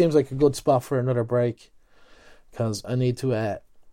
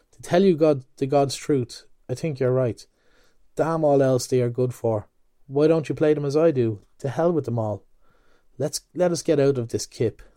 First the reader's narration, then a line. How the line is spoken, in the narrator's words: In a sudden change of tone, he added